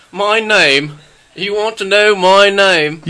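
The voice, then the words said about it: Bad put-on British Cockney accent. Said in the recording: “You sound like Harry Potter or something. ... He's Cockney now. ... like the worst British accents ever”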